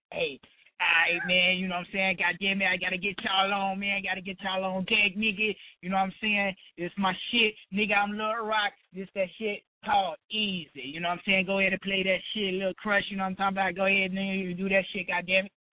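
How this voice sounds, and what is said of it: Impression of Lil Rock. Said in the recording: “my best Lil Rock impression ... That's pretty good.”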